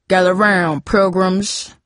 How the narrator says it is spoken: Cooper said in his best John Wayne voice

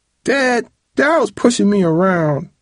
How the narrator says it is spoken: Travis whined

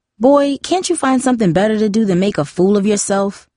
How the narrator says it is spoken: Darcy snapped

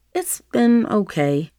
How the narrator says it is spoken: Nevaeh stammered, not wanting to explain

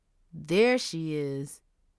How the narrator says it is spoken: Omar said with an ugly sneer

